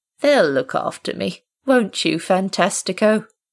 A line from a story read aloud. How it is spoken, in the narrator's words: David sighed